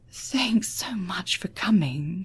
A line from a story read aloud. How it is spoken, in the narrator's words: she whispered